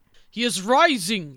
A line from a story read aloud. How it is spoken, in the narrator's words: exclaimed Henry